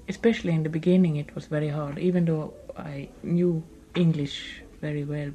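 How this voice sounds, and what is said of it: Foreign accent in English. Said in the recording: “I'll always be a foreigner here, obviously, with my accent now ... People couldn't understand my accent.”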